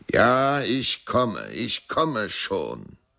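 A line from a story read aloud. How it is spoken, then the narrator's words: Dancer calling, strong voice. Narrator (German): rief mit starker Stimme der Tänzer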